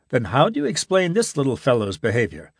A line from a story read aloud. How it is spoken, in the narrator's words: asked Gibson